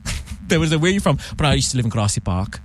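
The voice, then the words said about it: Put-on South African accent. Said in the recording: “Give us the South African accent. ... See, that's good, right? ... it's all right.”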